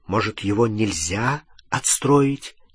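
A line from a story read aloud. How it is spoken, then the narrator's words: Plain. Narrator (Russian): ответил Гарри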